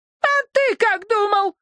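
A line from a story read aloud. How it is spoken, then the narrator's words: Shrieking. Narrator (Russian): взвизгнула тетушка Лавака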